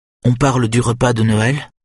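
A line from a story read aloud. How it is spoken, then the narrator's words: Unsteady question. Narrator (French): demande maintenant Anne-Britt d'une voix mal assurée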